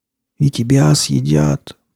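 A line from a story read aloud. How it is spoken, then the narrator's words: Hoarse wheeze. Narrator (Russian): просипел он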